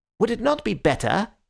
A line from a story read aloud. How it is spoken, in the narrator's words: said a little sharply